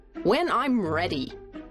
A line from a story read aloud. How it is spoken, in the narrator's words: snapped Aunt Maud